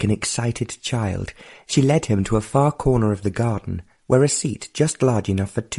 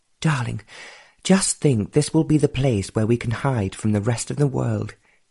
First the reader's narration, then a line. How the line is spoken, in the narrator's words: she sighed